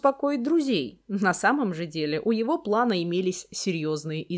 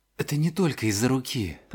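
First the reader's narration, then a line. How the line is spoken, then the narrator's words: Whisper. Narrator (Russian): прошептал Рон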